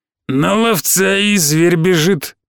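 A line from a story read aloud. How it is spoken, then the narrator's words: Hoarse wheeze. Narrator (Russian): прохрипел хрящ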